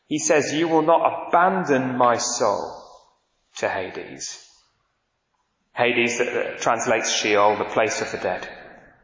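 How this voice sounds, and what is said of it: Manchester English accent. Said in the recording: “I come from Manchester, as you can tell by my accent.”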